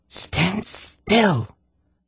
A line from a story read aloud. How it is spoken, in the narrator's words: Tsinedra hissed